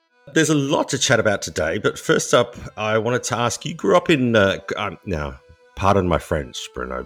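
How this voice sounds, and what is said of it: Australian accent. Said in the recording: “I'm an Australian with a really bad accent.”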